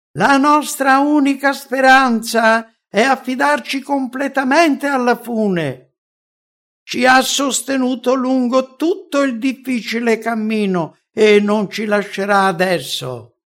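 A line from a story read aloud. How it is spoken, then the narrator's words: Hesitant, then exclaiming together. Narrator (Italian): Ci fu un attimo di esitazione a proseguire e poi esclamammo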